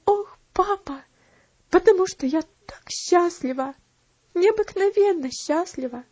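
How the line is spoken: Sobbing. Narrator (Russian): всхлипнула она

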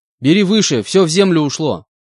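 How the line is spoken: Shouted. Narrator (Russian): выкрикнул я

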